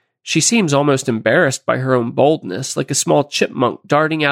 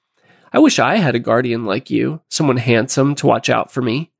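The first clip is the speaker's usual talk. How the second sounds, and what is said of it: Playful voice. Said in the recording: “in a playful voice,”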